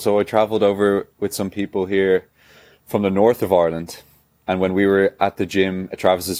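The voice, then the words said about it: Mild, neutral Dublin Irish accent. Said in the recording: “Your accent, Dublin? ... Your accent is so, I was going to use the word weak, but there's a better word. It's not strong. You're very easy to understand. ... I have kind of a neutral accent. I'm not too gimmicky.”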